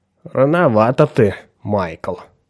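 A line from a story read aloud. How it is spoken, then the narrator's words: Admiral muttering. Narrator (Russian): пробормотал адмирал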